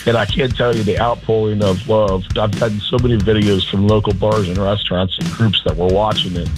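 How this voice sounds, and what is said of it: Hoarse, strained voice. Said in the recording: “Still a little hungover, and I've lost my voice.”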